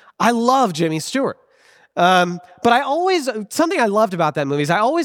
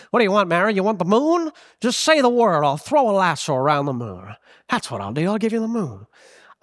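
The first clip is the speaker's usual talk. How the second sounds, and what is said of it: Jimmy Stewart impression, transatlantic accent. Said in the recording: “I love Jimmy Stewart, the actor as George Bailey. I love his voice, the transatlantic accent.”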